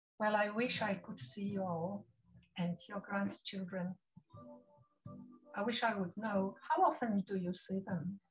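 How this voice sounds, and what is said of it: Non-native English accent, Polish background. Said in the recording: “my accent ... It's actually my fourth language after Polish, Russian, French, and now, yes, speaking English. So if I stumble from time to time, at least you know why.”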